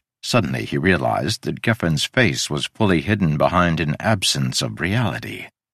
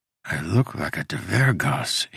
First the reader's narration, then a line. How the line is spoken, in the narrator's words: he whispered